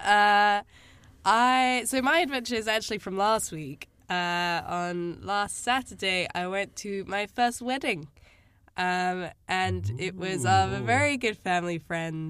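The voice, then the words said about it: Raspy voice. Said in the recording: “I have also been ill, as you might be able to tell from the lovely raspy tones”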